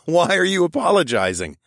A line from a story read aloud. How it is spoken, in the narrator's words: I asked through loud chuckles